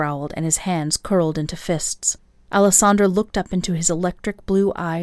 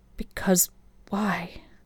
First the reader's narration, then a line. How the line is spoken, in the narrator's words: Her question came out in a soft whisper